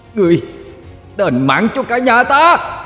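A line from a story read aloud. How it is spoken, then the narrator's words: Shouting. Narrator (Vietnamese): Cậu quát lên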